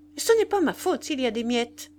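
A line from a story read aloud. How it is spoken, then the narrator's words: Curt. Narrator (French): dit-elle sèchement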